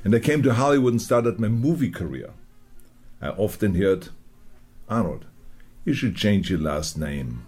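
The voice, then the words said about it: Foreign-accented English speech. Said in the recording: “they told me I should get rid of my accent”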